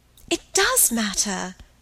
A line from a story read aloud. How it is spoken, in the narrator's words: cried Margaret